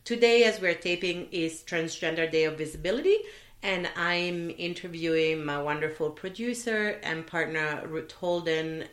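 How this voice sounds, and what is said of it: Voice sounds a little different. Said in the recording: “My voice might sound a little different today because I just have had periodontal surgery”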